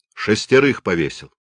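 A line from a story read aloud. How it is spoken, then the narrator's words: Curt, clipped remark. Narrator (Russian): начальник уезда полковник Степанов отрывисто бросил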